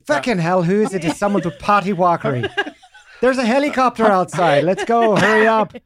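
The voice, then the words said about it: Put-on Irish accent. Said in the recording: “can you try an Irish accent? ... You've captured her timbre perfectly.”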